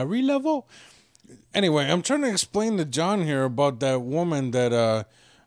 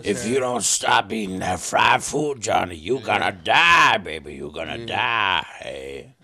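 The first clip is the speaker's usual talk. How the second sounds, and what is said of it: Old woman character voice. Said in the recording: “like very old black woman who's blind ... my voodoo lady impression”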